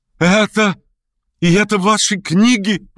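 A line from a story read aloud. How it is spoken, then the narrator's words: Excited exclamation. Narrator (Russian): воскликнул он, сверкая глазами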